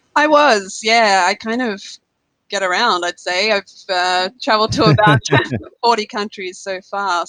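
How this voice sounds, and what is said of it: Australian accent. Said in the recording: “you can probably tell from my accent, I am Australian”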